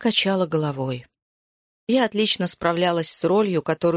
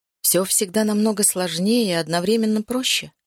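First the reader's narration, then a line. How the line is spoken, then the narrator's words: Plain. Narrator (Russian): сказала я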